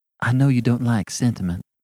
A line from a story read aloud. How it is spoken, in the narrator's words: she said timidly